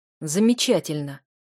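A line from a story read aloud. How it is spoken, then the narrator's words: Dragon's growl. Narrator (Russian): рыкнул дракон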